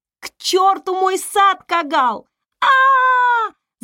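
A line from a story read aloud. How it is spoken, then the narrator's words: Pained scream. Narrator (Russian): закричала она сквозь кожу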